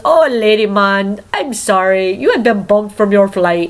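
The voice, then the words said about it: Imitated Barbadian accent. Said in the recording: “the lady in Barbados goes ... my accent isn't as good as and pretty as hers ... That's pretty good, though.”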